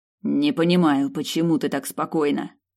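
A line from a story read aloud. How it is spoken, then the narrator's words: Grumbling. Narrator (Russian): проворчал Сорин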